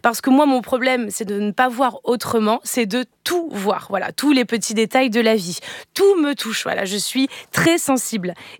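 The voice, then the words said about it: Put-on Marseille accent. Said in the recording (French): “j'essaie de vous imiter, Eva... Avec l'accent de Marseille... je ne ferais pas des accents bancals”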